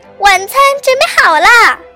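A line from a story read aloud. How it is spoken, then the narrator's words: Woman shouting loudly. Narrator (Chinese): 艾伯太太……大声喊道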